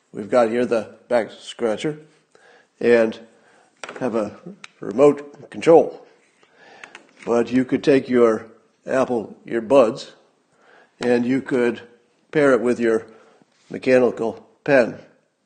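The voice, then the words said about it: Obama impression, low falling endings. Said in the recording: “my Obama impression ... Obama does down talk. So Obama's last word is always the deeper word ... finishes on a confident low note”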